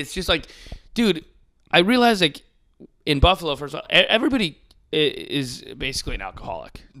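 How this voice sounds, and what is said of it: Hoarse, mostly lost voice. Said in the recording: “that's why my voice is gone ... I could hear it a little bit ... my voice is gone”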